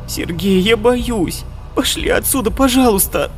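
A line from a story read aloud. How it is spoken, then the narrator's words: Near-tearful pleading. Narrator (Russian): Почти плачущим голосом умоляла Алиса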